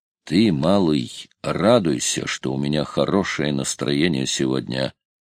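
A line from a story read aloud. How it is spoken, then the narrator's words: Grumbling. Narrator (Russian): проворчал Паркер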